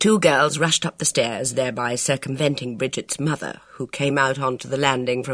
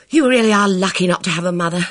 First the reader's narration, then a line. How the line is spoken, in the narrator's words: said Bridget, rather breathlessly